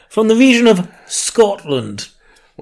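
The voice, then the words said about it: Put-on Scottish accent. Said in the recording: “Scott accent ... Scottish ... put a bit of stank on the O there, so I knew that you were from Scotland”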